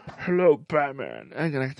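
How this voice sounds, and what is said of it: Poor imitation of a villain's voice. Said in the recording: “That's a terrible accent or impression.”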